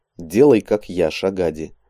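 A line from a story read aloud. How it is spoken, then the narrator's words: Calm. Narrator (Russian): спокойно произнес Андрей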